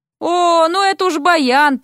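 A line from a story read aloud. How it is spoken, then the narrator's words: Groan. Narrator (Russian): простонал Дерек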